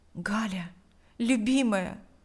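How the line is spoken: Whisper. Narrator (Russian): прошептал Павел

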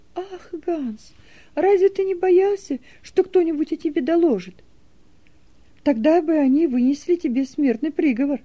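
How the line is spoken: Frightened exclamation. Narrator (Russian): В страхе воскликнула Нета

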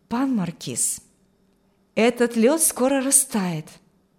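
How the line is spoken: Soft. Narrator (Russian): сказал он мягко

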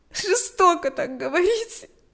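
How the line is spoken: Sobbing reply. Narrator (Russian): ответила Галя, всхлипывая

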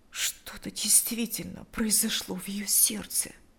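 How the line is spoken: Quiet elderly woman. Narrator (Russian): тихо обратилась пожилая женщина

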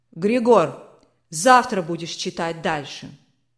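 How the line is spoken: Commanding tone. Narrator (Russian): Властным тоном сказал барон

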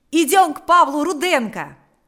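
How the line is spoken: Shout. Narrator (Russian): закричал Панас

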